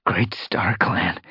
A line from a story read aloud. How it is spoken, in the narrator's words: he whispered